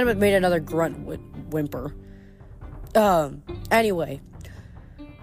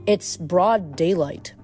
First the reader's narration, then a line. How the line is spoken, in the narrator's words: Piper said